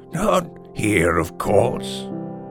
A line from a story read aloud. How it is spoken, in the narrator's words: Mumford wheezed out from the opening of the haystack